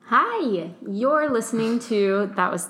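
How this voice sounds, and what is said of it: Customer service voice. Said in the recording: “that was customer service voice.”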